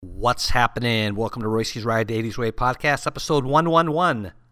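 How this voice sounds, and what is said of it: Hoarse, strained voice. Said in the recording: “losing my voice already.”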